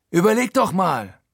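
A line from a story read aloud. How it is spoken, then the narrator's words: Calling out. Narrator (German): ruft er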